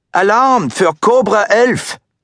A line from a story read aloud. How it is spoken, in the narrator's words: the bellman who cried to him in German